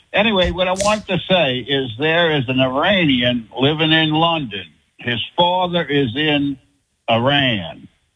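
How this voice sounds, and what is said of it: Louisiana accent. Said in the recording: “I love the accent. ... I'm from Louisiana. I just moved to Mississippi.”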